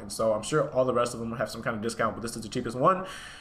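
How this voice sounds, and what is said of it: Talking very fast. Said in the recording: “why are you talking so fast? ... I'm actually running it pretty quickly and pretty fluently”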